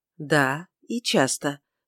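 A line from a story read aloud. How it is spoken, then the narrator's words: Soft reply. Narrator (Russian): мягко ответила Тельма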